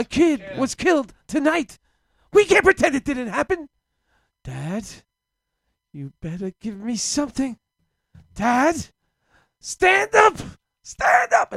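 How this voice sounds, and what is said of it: James Dean impression. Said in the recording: “my impersonation of James Dean”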